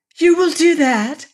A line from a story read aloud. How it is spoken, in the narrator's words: cried with sudden eager hopefulness